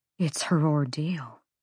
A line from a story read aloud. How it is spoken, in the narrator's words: Flynn murmured